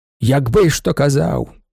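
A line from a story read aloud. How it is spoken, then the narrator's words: Doctor grumbling. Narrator (Ukrainian): буркнув доктор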